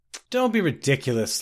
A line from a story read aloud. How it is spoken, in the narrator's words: laughed the Bosmer unconvincingly